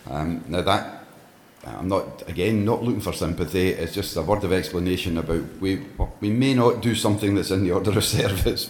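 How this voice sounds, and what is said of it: Low voice from a cold. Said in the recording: “I have a bit of a cold this morning, so my voice is kind of low.”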